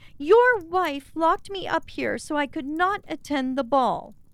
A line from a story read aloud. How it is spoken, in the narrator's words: cried Cinderella